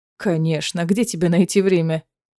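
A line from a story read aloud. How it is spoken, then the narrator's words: Scoffing snort. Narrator (Russian): хмыкнул Фенрис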